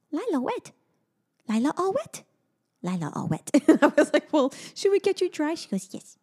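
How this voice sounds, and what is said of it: Accurate impersonation of a child. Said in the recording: “how oddly accurate your impersonation of her is”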